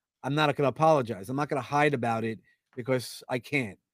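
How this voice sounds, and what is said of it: Brooklyn New York accent. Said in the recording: “that Brooklyn, New York accent.”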